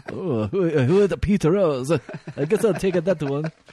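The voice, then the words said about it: Put-on offensive foreign accent. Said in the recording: “your accent is so offensive”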